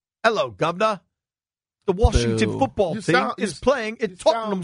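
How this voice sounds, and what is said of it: Poor put-on British accent. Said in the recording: “Everybody give me your best British accent. ... You don't sound like you're from London.”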